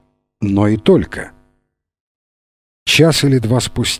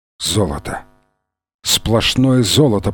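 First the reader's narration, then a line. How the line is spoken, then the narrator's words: Whisper. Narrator (Russian): прошептал Фрэнсис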